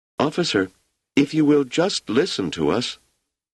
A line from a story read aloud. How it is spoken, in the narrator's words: Wanda said in a sweet, small voice